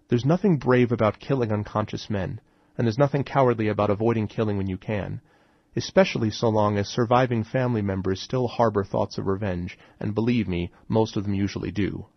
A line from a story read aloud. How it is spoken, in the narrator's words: I replied